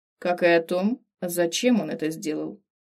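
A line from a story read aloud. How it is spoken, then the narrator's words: Grim. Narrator (Russian): Закончил мрачно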